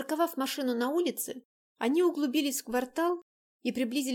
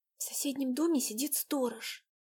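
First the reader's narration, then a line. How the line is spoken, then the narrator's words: Quiet speech. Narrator (Russian): тихо проговорила Дайнека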